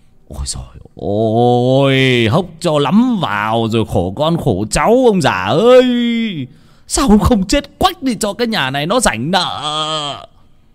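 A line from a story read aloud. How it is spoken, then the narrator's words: Shrill hiss. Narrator (Vietnamese): Lão Công mới rít lên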